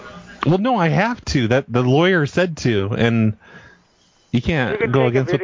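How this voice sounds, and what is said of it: Usual voice. Nothing is said of it.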